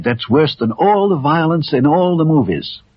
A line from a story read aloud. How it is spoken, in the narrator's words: cried